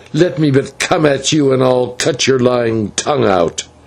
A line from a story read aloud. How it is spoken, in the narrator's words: he gasped